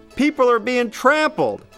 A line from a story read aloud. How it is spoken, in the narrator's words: an enormous security guard shouts into his wrist mic